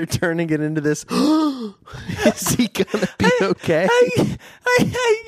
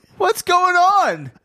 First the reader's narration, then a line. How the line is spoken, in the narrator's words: Joe cried out